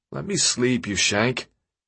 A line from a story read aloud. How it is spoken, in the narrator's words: groaned